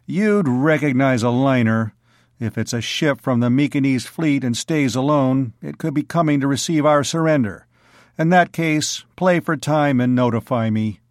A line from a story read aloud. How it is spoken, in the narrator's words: Bors said grimly